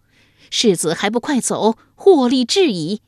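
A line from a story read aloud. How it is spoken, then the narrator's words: Loud woman's voice. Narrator (Chinese): 马脸妇人大声说道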